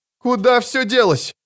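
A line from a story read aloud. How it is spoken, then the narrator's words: Shouted over the wind. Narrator (Russian): крикнула она сквозь ветер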